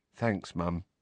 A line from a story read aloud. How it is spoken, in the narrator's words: Neville said quietly